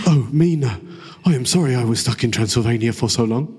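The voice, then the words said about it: Keanu Reeves impression, bad accent. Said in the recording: “Keanu Reeves. The worst accent.”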